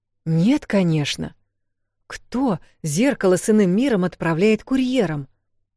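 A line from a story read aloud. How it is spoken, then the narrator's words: Indignant man. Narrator (Russian): возмущенно сказал он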